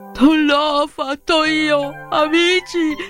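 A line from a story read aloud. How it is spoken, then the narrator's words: Sobbing. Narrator (Italian): singhiozzò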